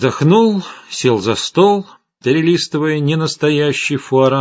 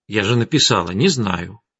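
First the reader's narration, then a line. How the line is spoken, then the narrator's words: Calm answer. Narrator (Russian): спокойно ответила Арина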